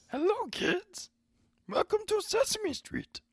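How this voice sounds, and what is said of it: Impression of a puppet character voice. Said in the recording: “doing a very good impression”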